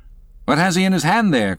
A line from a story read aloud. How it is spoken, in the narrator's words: cried Starbuck